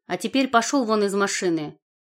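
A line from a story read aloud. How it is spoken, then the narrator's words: Angry command. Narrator (Russian): зло приказала я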